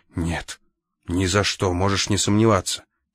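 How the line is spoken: Angry. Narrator (Russian): сердито сказал Рультабий

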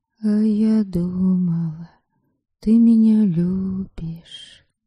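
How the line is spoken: Quiet, soft. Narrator (Russian): тихо промолвила Ересава

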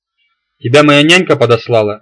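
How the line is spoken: Grateful laughter. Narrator (Russian): рассмеялся я с благодарностью

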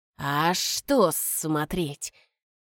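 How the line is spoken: Drawling. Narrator (Russian): протянул Захри

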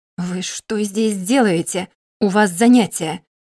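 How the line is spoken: Hissing. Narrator (Russian): прошипел магистр

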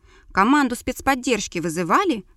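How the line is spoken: Smirking snort. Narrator (Russian): хмыкнул Давид

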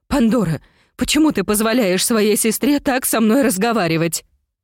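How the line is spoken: Sobbing. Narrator (Russian): Она разрыдалась

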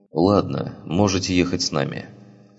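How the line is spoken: Plain. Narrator (Russian): сказал он

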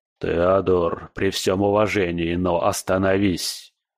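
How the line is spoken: Heavy sigh. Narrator (Russian): Скала, тяжело вздохнув

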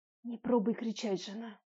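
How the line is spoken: Heartfelt whisper. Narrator (Russian): Проникновенный шепот

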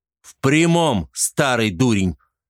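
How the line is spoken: Barking snap. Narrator (Russian): рявкнул Варзаван

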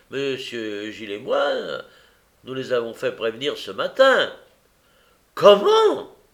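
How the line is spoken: Doctor exclaiming. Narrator (French): s'écria le docteur

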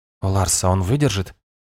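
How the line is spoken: Quiet question. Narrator (Russian): тихо спросил стоявший рядом Арве

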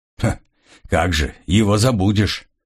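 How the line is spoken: Grumble. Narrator (Russian): проворчал Грегор

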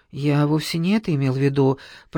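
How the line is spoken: Mumbling. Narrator (Russian): пробормотал Старыгин

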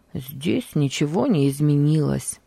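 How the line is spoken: Muttering. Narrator (Russian): пробормотал он

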